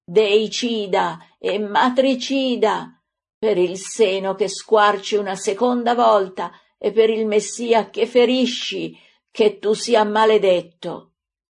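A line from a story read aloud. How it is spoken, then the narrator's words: Pained scream while collapsing. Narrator (Italian): la misera, colpita dal figlio con un calcio brutale all'inguine, stramazza gridando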